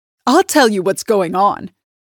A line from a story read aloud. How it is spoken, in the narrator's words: announces triumphantly